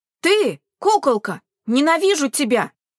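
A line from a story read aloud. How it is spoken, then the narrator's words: Flustered boy shouting. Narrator (Russian): прокричал мальчик, покраснев до ушей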